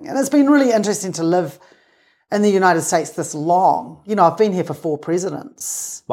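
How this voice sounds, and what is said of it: Non-American accent. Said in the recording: “you'd think my accent would have changed, but no.”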